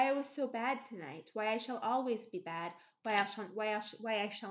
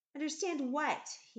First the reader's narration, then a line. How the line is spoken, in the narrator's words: he asked angrily